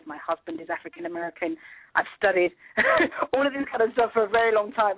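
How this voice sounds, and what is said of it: British accent. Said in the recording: “people hear my accent and be like, well, hang on a minute, she's not African American ... I was born in the UK.”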